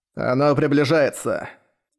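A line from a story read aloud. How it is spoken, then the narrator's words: Hissed. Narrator (Russian): прошипел Зелгадис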